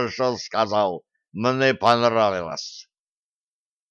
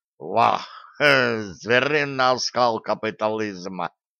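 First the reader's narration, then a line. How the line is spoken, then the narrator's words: Loud laughter. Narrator (Russian): расхохотался Шамсуд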